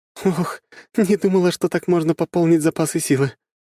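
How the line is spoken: Breathed out. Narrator (Russian): выдохнула она

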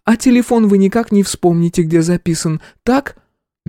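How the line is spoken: Slow singsong drawl. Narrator (Russian): Медлительность старшего менеджера, его манера говорить нараспев

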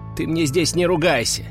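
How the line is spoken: Stern. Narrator (Russian): строго сказал я

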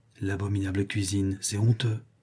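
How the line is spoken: Murmured very quietly. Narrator (French): L'une d'elles murmura tout bas

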